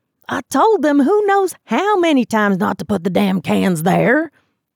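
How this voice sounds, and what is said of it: Thick Southern accent, angry. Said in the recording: “he said in a thick southern accent ... he said angrily”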